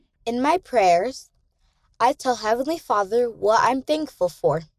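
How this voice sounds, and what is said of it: Confident, clear child's voice. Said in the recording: “Her voice was confident and clear.”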